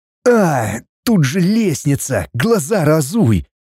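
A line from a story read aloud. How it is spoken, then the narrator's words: Pained groan. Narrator (Russian): Простонал мой спаситель-похититель, когда я чуть не свернула ему шею, свалившись на него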